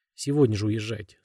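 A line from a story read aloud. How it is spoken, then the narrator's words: Plain. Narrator (Russian): сказал он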